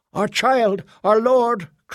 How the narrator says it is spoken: cried another

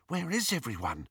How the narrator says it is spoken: whispered Hermione

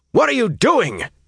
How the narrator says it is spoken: he barked, so angry, so shocked

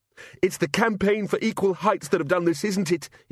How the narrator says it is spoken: he shouted

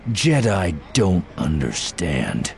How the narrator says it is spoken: Voss said, his voice dripping contempt

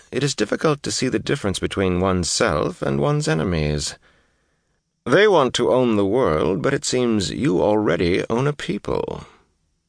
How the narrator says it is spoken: Asmodian chuckled

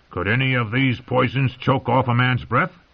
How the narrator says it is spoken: Tyrion called out

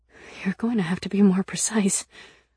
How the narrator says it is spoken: I said shakily

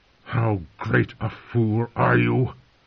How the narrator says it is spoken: the old man said within, his voice choked and angry

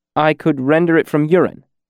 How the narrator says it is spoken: I said quickly

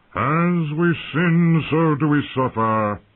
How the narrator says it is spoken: he intoned in a deep, swelling voice, much louder than father's

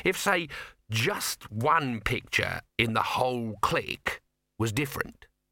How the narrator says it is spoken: he said slowly

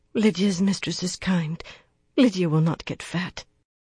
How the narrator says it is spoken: murmured

